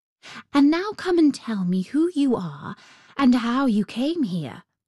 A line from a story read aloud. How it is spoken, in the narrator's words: she said